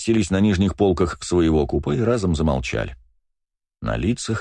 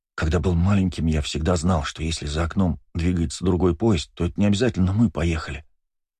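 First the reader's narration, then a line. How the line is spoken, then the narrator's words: Whispering. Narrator (Russian): почему-то шепотом проговорил Бельфигор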